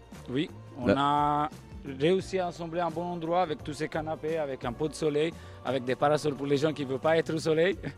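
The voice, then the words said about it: Italian-accented French. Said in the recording (French): “avec ce bel accent”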